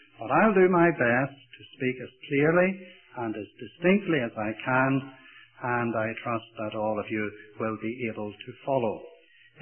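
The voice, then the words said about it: Irish accent. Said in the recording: “my accent ... a few Irishisms”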